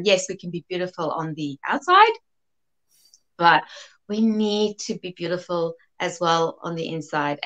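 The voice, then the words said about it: South African accent. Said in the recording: “I was born in South Africa, hence the South African accent. ... I love your accent.”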